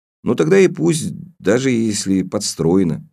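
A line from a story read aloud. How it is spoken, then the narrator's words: Plain. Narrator (Russian): сказал я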